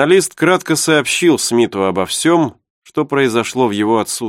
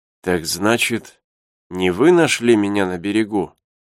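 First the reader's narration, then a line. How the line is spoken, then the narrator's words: Weak voice. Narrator (Russian): спросил инженер еще не окрепшим голосом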